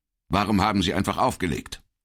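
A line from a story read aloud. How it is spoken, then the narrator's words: Asked sternly. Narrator (German): fragte Pata streng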